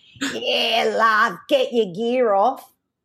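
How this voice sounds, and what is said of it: Broad Australian accent. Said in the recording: “this is my Australian accent coming out now”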